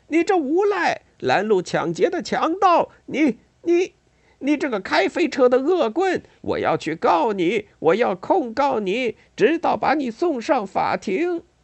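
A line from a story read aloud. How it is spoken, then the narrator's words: Loud angry shout. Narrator (Chinese): 他大声喊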